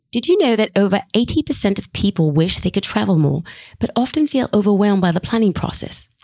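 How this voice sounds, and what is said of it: Put-on accent, character voice. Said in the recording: “I'm going to use a different voice for Jane ... how terrible my accent is ... I do not pretend to actually know how to speak with an accent”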